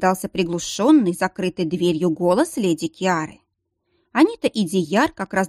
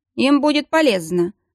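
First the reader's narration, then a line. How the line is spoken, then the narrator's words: Snort. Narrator (Russian): хмыкнул декан Волфус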